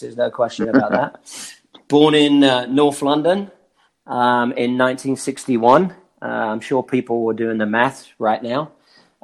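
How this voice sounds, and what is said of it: British (London) accent. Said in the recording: “the accent didn't come from being born in the United States”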